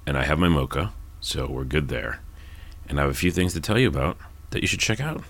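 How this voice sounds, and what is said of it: Especially low, deep early-morning voice. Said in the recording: “It's really early, and that's why my voice is this low. It's normally low, but it's especially low up until 10 a.m.”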